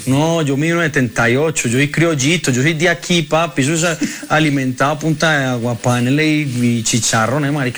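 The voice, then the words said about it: Colombian Medellín accent. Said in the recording (Spanish): “el acento ... Sí, qué buen acento ... Sensacional ... El acento, parce ... Es de Medellín, ¿no?”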